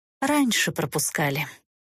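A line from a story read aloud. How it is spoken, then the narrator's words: Nun's quiet sigh. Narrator (Russian): тихо вздохнула монашка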